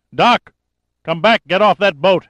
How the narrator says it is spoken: amplified voice boomed over the water

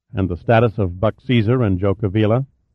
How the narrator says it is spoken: Pitt asked

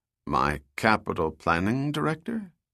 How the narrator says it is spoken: Goyette asked in a confused tone

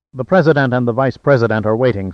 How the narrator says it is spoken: said Nichols quickly

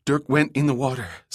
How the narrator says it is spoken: Summer panted

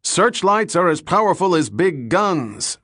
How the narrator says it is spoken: Falconer shouted

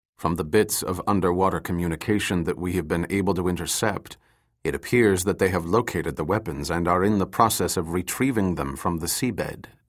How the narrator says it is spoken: Tongju said in a quiet voice

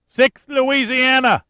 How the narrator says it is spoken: cried

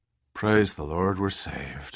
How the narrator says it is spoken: murmured the helmsman, his face red from the effort, his arms numb with exhaustion

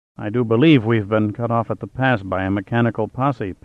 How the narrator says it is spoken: Pitt muttered softly

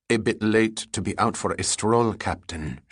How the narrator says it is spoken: said coldly

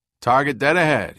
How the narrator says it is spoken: called out

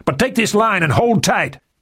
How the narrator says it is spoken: Murphy yelled

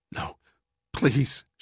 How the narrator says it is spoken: pleaded, her voice becoming little more than a rasping whisper

